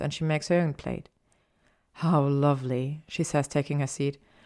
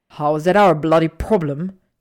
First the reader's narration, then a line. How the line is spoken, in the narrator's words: He growls